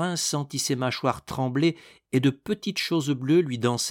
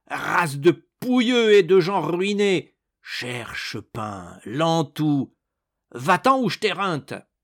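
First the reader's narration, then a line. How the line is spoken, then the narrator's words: Choked furious yelling. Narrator (French): étranglé de fureur, il vociféra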